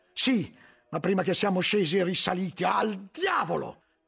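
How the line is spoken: Shouted. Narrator (Italian): gridò poi

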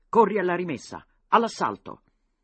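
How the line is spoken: Shouting inside. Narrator (Italian): gridò dentro

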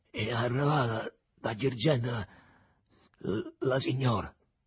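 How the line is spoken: Stammering. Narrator (Italian): balbettò

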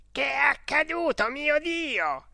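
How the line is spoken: Shouted. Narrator (Italian): ha gridato

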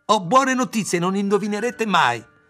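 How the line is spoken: Frantic excited shout. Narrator (Italian): Ayla ... come se non stesse più in sé ... gridò

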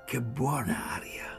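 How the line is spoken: Breath drawn, then muttering. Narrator (Italian): Tirai il fiato e borbottai

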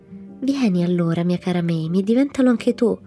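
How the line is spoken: Pleading. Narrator (Italian): la supplicò Peter

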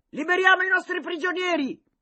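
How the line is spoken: Yelled. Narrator (Italian): urlò Franco Hack

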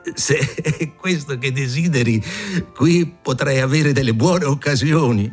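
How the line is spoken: Laughing innkeeper. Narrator (Italian): L'oste rise e disse

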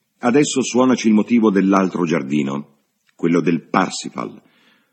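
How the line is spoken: Irritated shout. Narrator (Italian): Cecil, che ne condivideva il malcontento, gridò

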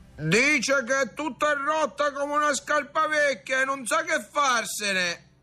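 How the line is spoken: Distant shout. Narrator (Italian): gridò da lontano

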